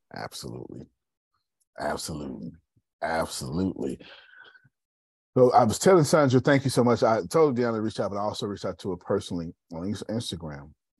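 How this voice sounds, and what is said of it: Raspy voice. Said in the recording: “ignore my raspy voice”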